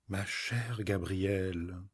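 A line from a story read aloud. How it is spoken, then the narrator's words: Exasperated retort. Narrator (French): n'y tenant plus, elle répliqua d'une voix exaspérée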